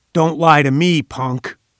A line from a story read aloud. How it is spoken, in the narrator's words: he roared